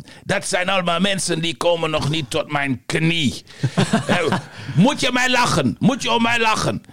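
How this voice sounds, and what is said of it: Mediocre imitation of Yugoslav accent. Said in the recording (Dutch): “Joegoslaaf ... Een matige, iets wat racistische imitatie.”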